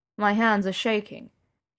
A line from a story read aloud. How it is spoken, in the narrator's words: he said calmly